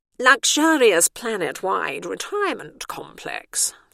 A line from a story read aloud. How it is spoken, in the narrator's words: the warden interrupted haughtily